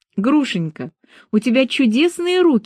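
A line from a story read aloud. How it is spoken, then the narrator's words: Exclaiming. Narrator (Russian): воскликнула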